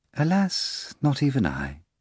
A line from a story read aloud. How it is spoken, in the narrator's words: the guest replied calmly